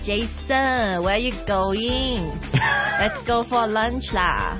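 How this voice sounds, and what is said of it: Put-on Singaporean English accent. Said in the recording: “I can do the Singaporean accent ... So they add a lot of la at the end ... 他们的那个 intonation 会比较不一样 ... it sounds a bit Indian”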